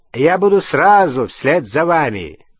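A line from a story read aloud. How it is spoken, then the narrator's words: High cold voice. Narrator (Russian): произнес он высоким, холодным голосом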